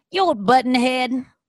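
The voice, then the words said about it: Imitates another person's voice, half-committed. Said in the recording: “Is that a Salma Hayek impression again? That was my Salma Hayek... I think I have to go higher, but I'm also like not committing to it.”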